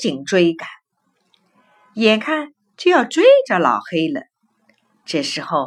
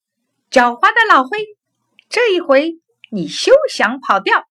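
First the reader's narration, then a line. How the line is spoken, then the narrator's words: Shouting. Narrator (Chinese): 小灰却叫道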